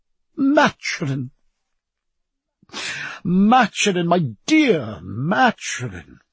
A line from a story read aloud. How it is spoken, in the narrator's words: cried Sir Joseph